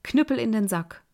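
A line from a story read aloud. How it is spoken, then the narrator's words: Call. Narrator (German): rief er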